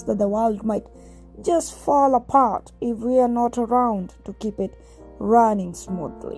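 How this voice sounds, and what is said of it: Put-on accent. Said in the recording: “I put on a little accent there”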